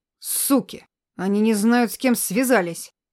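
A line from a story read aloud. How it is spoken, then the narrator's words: Dull, muffled. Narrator (Russian): Глухо произнес Антоха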